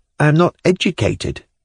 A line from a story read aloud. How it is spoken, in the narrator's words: she added timidly